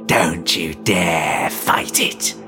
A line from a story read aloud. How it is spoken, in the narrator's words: his reflection hissed